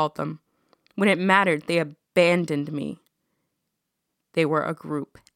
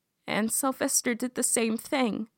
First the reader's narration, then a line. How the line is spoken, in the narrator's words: Lillian said, her voice tight